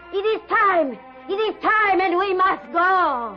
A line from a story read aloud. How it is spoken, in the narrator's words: suddenly, Ilse's mother shouted